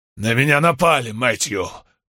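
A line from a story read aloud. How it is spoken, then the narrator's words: Hardened yet weak, muffled. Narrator (Russian): произнес он с ужесточением, но слабым и глухим голосом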